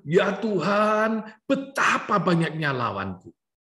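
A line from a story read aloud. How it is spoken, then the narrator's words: Exclaiming. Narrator (Indonesian): ia berseru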